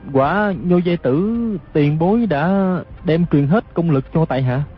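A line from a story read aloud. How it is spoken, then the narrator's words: Hesitant reply. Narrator (Vietnamese): Hư Trúc ngập ngừng đáp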